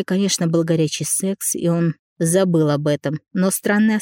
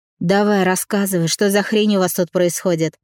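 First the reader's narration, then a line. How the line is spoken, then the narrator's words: With a snort. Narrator (Russian): Коля хмыкнул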